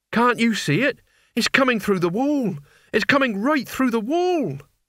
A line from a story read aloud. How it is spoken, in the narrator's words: said in a trembling voice